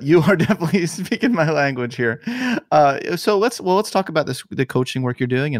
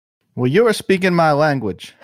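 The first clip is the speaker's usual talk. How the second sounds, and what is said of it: Briefly slips into a put-on accent. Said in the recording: “I don't know why it went to that accent”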